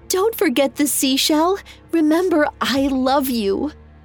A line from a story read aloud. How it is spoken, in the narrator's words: She wept and called out to him